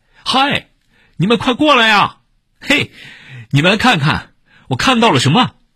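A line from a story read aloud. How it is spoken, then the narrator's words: Shouting. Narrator (Chinese): 对着俩哥哥大喊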